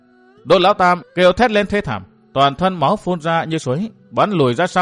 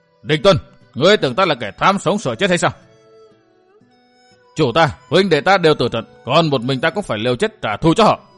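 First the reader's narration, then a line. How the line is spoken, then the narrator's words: Roaring. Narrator (Vietnamese): Cổ Hạo gầm lên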